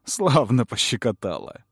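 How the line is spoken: Laughing. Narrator (Russian): рассмеялся Кэллум

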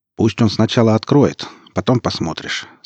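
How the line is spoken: Calm. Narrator (Russian): сказал сталкер спокойно

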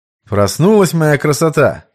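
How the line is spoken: Cheerful question. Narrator (Russian): бодрым тоном поинтересовался Сергей

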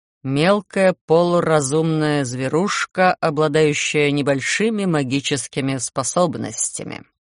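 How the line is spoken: Bored lecturing tone. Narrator (Russian): скучным лекторским тоном сообщил из моей спины Гарон

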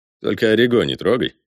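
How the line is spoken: Snorting. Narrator (Russian): хмыкнул Ли

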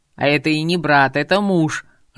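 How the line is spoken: Growling. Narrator (Russian): рыкнул Артурчик

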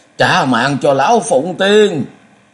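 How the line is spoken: Shrieking. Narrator (Vietnamese): Khổng Thức Bà Bà rít lên

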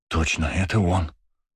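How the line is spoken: Whisper. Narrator (Russian): прошептал Жан

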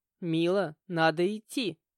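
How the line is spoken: Stern reminder. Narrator (Russian): строго напомнил Тимур

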